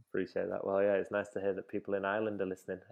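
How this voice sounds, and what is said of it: Mancunian English accent. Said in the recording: “my Mancunian accent”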